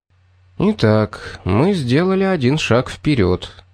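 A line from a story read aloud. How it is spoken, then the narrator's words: Calm summary. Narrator (Russian): спокойно подытожил Пит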